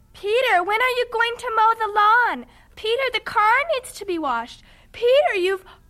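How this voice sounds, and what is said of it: Imitating his nagging mother. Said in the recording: “You do a very good imitation.”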